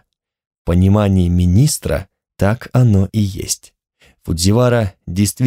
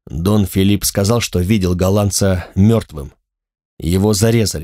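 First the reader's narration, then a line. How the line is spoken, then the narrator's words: Plain. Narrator (Russian): сказал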